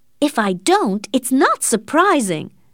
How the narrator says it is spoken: her aunt answered angrily

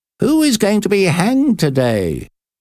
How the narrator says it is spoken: Paquette called out

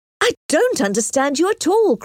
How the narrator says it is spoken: cried Emma

